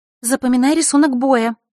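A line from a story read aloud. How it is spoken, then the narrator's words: Hurried interjection. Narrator (Russian): торопливо вмешалась Гроза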